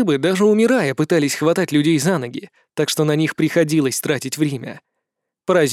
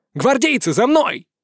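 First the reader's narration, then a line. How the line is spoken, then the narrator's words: Yelling. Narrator (Russian): заорал я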